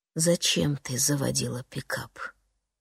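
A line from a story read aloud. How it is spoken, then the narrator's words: Quiet question. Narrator (Russian): тихо спрашивает он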